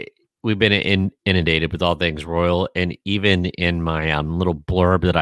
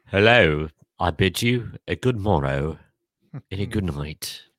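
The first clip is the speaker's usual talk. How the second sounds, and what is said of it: Put-on British accent. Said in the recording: “Apropos with the British accent”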